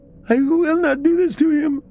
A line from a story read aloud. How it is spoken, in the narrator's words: I scream, shaking